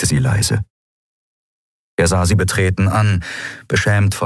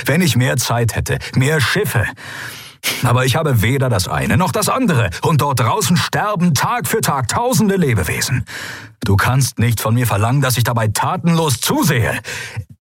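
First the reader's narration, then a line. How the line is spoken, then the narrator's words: Barked. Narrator (German): bellte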